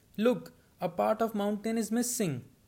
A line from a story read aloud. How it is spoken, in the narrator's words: Suddenly, who had just gulped down three free dumplings, cried out